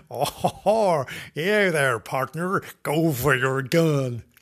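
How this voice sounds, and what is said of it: Put-on American cowboy accent. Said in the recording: “I could do the American accent. That's a great one, isn't it?”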